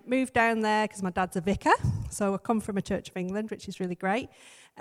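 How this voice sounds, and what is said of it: Northern English accent. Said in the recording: “my twang is northern, and if I get really cross, it goes even worse”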